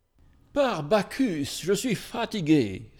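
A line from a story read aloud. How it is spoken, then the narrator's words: Young man exclaiming. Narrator (French): s'écria un jeune patricien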